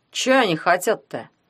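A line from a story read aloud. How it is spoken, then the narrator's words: Plain. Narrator (Russian): спросил Гуня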